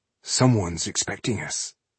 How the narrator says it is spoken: he said quietly

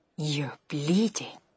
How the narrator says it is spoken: she whispered

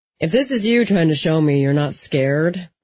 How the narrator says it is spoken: Jesse said in a bored voice

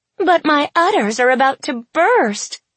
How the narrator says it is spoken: cried Tess

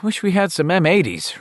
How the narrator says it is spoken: Richie sighed

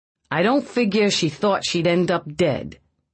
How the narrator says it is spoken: Feeney said evenly

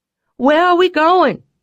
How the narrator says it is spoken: I had to shout to make myself heard over the dual roar of the wind and engine

